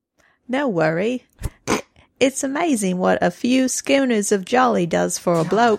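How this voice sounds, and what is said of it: Put-on Australian accent. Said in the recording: “I will read in my Australian accent.”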